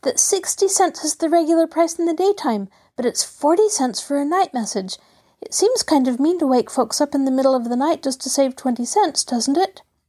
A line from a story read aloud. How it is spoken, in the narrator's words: cried Mabel, bursting in excitedly